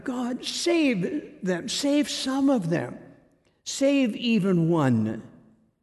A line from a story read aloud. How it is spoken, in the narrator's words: Rena cried out in prayer to God